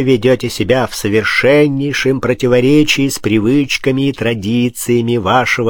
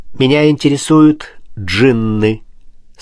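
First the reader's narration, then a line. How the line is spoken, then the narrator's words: Plain. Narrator (Russian): сказал Пушкин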